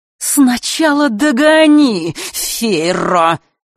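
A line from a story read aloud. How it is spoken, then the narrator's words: Sudden hiss. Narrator (Russian): вдруг прошипела она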